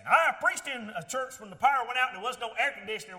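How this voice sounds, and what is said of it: Thick Southern US accent. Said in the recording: “I got this real thick southern accent ... my southern accent ... got a southern accent”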